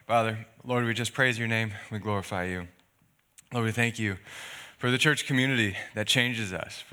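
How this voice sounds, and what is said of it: Slightly raspy voice. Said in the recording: “my voice is going to be a little raspy ... I'm getting a sore throat”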